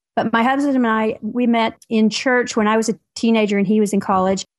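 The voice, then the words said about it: Mild Southern Tennessee accent. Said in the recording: “I am a Southerner by birth. I'm from Tennessee originally, so if you hear a little bit of accent there”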